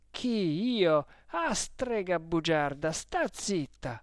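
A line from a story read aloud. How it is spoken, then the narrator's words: Angry shout. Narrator (Italian): gridò Renzo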